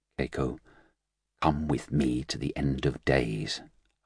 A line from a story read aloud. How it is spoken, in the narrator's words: Hines murmured